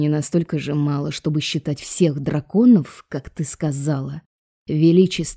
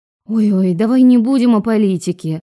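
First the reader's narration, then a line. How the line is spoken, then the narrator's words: Pleading interruption. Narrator (Russian): взмолилась, перебив профессора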